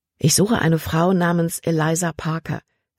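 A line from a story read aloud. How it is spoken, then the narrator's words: Plain. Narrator (German): sagte Caleb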